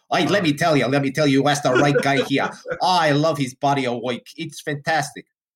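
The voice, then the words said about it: Put-on New York accent. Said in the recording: “apparently people in Boise, Idaho have New York accents.”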